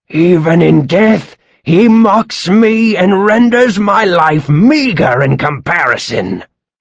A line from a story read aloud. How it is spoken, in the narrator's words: Dian Kecht roared